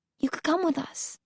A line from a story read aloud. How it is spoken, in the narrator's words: She pauses, then repeats quietly